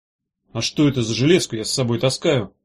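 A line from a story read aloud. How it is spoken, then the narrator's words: Muttered. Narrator (Russian): пробормотал Меф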